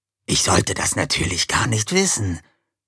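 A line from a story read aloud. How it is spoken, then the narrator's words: Hissed. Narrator (German): zischte Bataille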